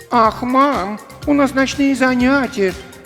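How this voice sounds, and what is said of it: Mocking imitation of Maxim. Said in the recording (Russian): “передразнила”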